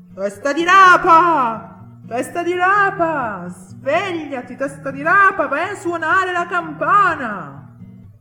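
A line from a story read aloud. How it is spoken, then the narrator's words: Shouting. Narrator (Italian): iniziò a gridare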